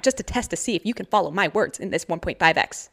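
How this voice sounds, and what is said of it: Speaking very fast. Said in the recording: “I'm talking really fast”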